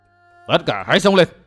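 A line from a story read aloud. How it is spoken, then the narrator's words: Old man shouting. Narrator (Vietnamese): Lão hộ pháp quát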